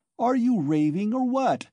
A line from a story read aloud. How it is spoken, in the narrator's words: Razumihin shouted, roused to fury at last